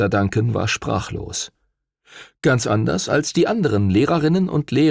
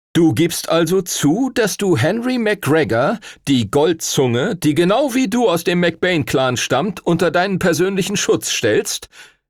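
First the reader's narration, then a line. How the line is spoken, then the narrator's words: Loud, emphatic question. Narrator (German): fragte Stuart Todd Senior laut und betont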